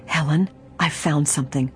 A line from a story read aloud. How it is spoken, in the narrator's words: she whispered hoarsely